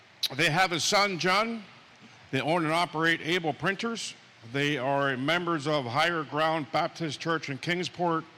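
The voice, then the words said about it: Lebanon County regional accent. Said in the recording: “people can tell my accent is Lebanon County”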